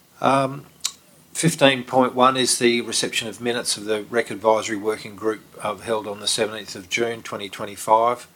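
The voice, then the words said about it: Nasal, blocked-up voice. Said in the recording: “I did have my head in a hay baler a few hours ago and it's blocked me up, so if I sound a little nasally, my apologies.”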